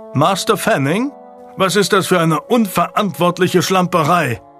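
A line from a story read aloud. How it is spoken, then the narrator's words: Sheriff thundering. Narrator (German): donnerte der Sheriff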